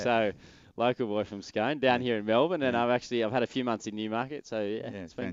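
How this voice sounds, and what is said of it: Australian accent. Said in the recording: “you've got an Aussie accent”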